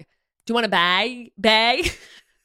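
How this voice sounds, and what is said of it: Imitated Wisconsin accent. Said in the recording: “the way a Wisconsin accent says bag... It sounds like bagel... I'm not even saying that right”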